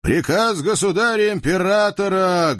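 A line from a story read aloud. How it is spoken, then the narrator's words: Loud yell. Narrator (Russian): громко проорал атаманский казачок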